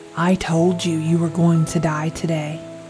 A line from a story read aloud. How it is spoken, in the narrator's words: I heard him say in the most malevolent tone